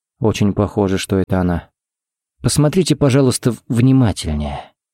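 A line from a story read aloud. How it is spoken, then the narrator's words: Gentle request. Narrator (Russian): попросил Харри мягко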